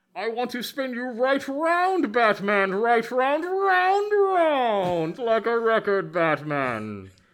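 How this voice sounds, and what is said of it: Bane impression singing karaoke. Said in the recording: “So here's Bane doing karaoke. ... It's my impression of Bane doing karaoke.”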